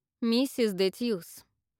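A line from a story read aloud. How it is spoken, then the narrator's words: Stern rebuke. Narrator (Russian): строго осадила Яна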